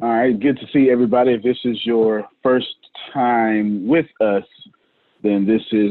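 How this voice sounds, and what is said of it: Usual voice. Nothing is said of it.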